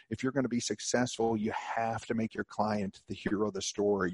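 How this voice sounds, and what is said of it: Smooth, resonant radio voice. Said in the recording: “you have a beautiful radio voice”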